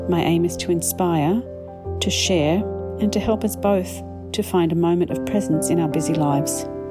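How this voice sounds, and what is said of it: Mixed Australian-Canadian accent. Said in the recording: “As an expat Australian who has spent 30 plus years living in Canada, I definitely do have an accent. I'm not sure if I am Oznadian or Canralian”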